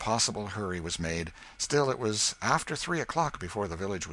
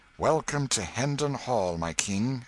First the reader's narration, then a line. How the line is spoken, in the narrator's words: exclaimed Miles